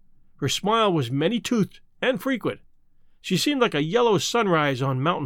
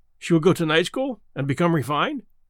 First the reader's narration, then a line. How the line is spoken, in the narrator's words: ventured anxiously